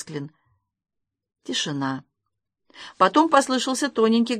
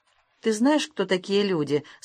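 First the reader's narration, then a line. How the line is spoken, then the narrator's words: Plain. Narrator (Russian): спросил Масклин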